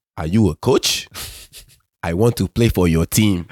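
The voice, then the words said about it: Strong African accent. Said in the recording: “in my African accent ... I had like a strong African accent.”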